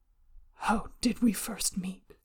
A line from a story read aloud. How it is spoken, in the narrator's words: He asks hoarsely